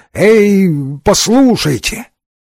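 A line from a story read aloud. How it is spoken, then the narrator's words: Weak, unconvincing exclamation. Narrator (Russian): сумел только неубедительно воскликнуть не слишком внушительным голосом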